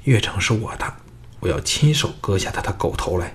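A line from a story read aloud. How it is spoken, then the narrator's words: Low voice. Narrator (Chinese): 右旁的单柔低声说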